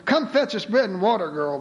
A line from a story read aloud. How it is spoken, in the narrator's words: they laughed